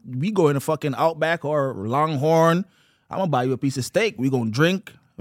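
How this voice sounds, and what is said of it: Speaks with a strong foreign accent. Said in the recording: “talk like really twang sometime ... Because I want them hear the accent”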